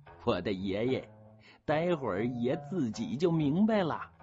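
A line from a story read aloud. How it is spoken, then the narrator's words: Laughing. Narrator (Chinese): 人精子笑着说了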